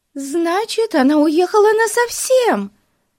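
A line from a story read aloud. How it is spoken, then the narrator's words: Despairing exclamation. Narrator (Russian): С отчаянием воскликнула Бетси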